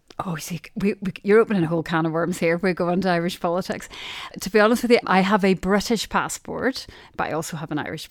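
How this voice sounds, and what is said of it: Northern Irish Derry accent. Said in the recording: “I clearly haven't managed to shake off my Derry accent”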